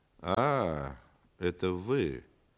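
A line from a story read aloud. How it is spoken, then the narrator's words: Disappointed drawl. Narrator (Russian): разочарованно протянул антрепренер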